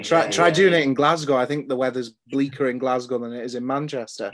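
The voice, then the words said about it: Newcastle accent. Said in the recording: “I've lived in London and I've lived in Newcastle as well. That's sort of where the accent's from.”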